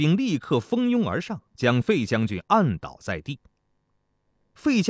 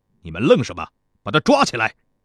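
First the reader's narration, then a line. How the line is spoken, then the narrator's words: Harsh sneering rebuke. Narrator (Chinese): 公子交师冷笑着，随即对士兵们厉声呵斥道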